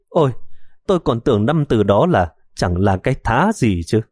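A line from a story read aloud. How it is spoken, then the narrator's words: Laughing. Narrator (Vietnamese): Hắn bật cười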